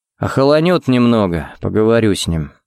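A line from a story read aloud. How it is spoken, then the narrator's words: Sighing. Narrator (Russian): вздохнул он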